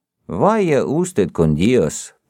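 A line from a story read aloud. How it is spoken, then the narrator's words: Muttered. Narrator (Russian): пробормотал гном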